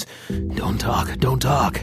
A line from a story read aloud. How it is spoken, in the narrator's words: whispered frantically, unsure what to do next